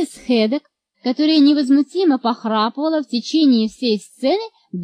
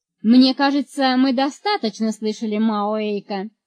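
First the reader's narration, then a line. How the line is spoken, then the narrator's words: Plain. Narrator (Russian): сказала мама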